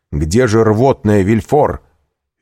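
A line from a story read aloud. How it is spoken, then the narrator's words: Shouted. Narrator (Russian): Вильфор крикнул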